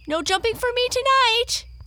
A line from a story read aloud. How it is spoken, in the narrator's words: he piped in a shrill voice